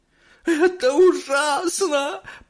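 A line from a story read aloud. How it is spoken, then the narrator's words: Moaned. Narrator (Russian): простонала миссис Телек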